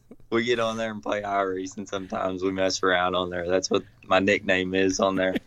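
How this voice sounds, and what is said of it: Country accent, slow speech. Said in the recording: “It's just my accent. They say I talk slow.”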